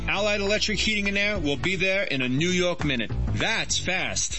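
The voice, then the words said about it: New York accent. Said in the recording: “people still ask me if I'm from New York ... You don't hear it, do you? ... What accent?”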